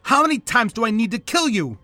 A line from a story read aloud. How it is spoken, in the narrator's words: screamed